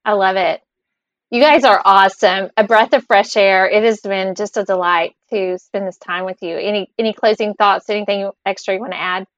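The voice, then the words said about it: Distinctive accent. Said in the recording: “I love your accent.”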